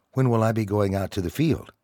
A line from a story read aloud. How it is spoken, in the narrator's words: John asked